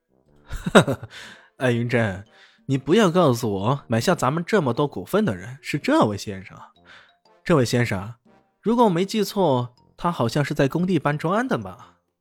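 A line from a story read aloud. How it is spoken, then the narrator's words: Loud mocking laughter. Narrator (Chinese): 艾云波忍不住大笑起来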